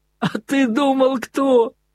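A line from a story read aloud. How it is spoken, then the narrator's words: Ringing, happy, full-force yell. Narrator (Russian): Звонким счастливым голосом изо всей силы завопил Красоткин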